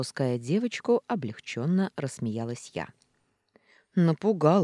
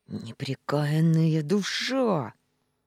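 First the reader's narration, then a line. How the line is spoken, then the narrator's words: Hissing cat. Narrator (Russian): прошипел кот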